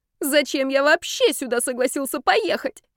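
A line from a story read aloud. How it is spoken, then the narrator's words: Angry, then howling. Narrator (Russian): сердито выговорил Ярослав и взвыл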